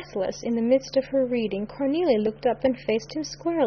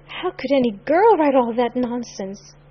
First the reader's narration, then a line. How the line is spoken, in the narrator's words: she gasped